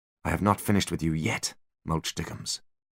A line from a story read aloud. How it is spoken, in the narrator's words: he whispered